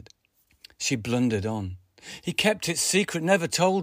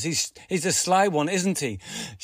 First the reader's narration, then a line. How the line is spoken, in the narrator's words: She laughed